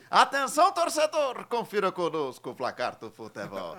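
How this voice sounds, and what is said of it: Imitates a radio football narrator. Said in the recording (Portuguese): “comecei a testar, né? E o primeiro, Zé Silvério, né? José Silvério, narrador é, da Rádio Bandeirantes, super famoso”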